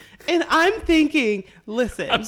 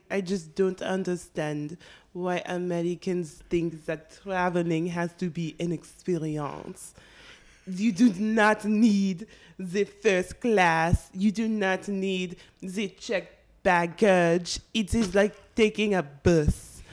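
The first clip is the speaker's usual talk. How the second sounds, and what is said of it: Put-on French accent. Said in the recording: “That accent ... Oh, that was not bad. ... I think once I get in my French accent, it gets much better. ... It gets a little Kenyan.”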